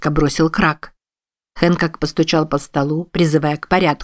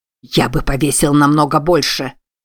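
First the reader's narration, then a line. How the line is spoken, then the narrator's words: Growling. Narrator (Russian): прорычал Крак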